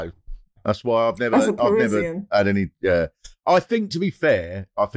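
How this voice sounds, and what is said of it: Usual voice. Nothing is said of it.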